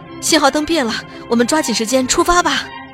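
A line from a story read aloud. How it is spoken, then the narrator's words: Panting, out of breath. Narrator (Chinese): 列车员一边喘着粗气，一边说道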